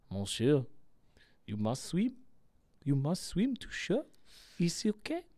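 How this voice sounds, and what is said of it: Put-on French accent. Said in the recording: “I don't reckon you needed to do the accent”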